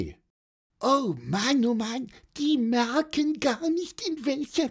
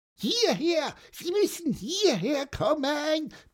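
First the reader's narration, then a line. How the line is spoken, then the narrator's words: Loudest possible squeak. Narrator (German): piepste Pieper, so laut er konnte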